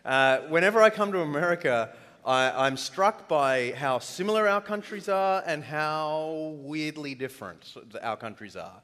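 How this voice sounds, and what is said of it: Australian accent. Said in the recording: “you have a funny accent, so it's hard for you to follow mine ... attuned your ear to my accent ... I'll pick up to Australian speed”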